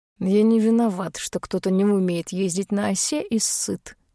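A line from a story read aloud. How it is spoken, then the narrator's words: Lazy declaration. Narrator (Russian): наконец лениво заявляет Дар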